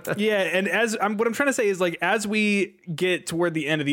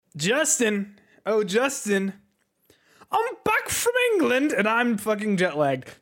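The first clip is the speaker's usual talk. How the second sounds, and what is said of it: Briefly put-on accent. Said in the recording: “that accent is lasting precisely 5 seconds.”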